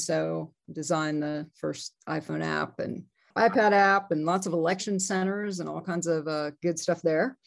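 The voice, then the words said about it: Slight Southern Georgia twang. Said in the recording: “I can hear a little tiny twang in there. Are you from Georgia? ... I hear a little bit of it.”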